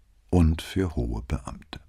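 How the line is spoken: Tired sighing agreement. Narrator (German): pflichtete Brunetti ihr bei, mit einem müden Seufzer

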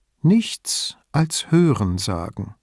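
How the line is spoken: Calm remark. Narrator (German): meinte sie ruhig

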